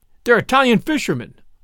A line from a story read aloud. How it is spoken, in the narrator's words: I cried, the facts of the case breaking in upon me